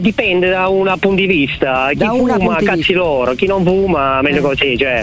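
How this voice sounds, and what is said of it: Southern Italian accent. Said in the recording (Italian): “si sente dall'accento ... Lei ha proprio l'accento tipico dell'evasore fiscale ... tu pensi che sono del sud”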